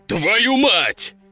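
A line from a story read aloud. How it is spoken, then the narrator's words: Roared. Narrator (Russian): взревел Лежаков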